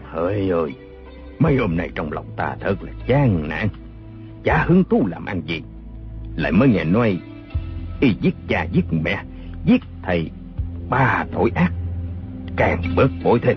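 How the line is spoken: Sighing. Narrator (Vietnamese): Bào Thiên Linh thở dài nói

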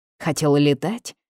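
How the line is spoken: Low bass grumble. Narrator (Russian): заворчал низким басом

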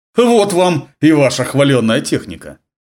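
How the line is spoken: Scoffing snort. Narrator (Russian): хмыкнул Родригес, обращаясь к Ларнеру

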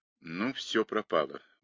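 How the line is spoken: Mutter. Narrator (Russian): буркнул Дрейк

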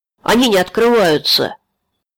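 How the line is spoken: Young man shouting. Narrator (Russian): парень крикнул вожаку

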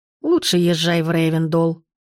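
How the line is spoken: Contented grumble, old woman. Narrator (Russian): довольно проворчала бабушка

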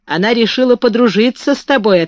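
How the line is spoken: Plain. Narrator (Russian): ответил Бен

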